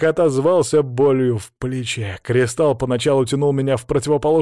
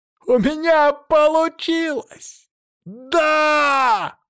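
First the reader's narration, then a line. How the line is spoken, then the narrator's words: Joyful shout. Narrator (Russian): На радостях я закричал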